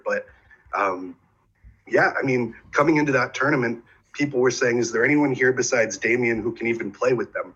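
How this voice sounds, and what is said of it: Slightly rough, sick-sounding voice. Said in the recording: “my voice is a little iffy today because I'm a little under the weather”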